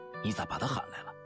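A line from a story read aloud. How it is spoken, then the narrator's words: Soft, reproachful. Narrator (Chinese): 张凡莲小声对走在后面的苏半甜嗔怪道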